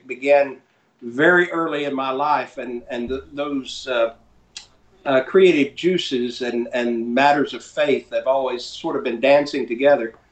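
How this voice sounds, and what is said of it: Rural North Carolina Appalachian accent. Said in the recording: “I grew up in rural North Carolina, uh, a little tiny uh, uh, village there uh, at the foothills of the Appalachians, and so that also kind of is the reason I have this accent ... I'm a diphthong ready to happen”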